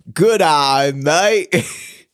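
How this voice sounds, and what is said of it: Put-on Australian accent. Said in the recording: “accent challenge. Australian, go. ... That's how Australian people sound.”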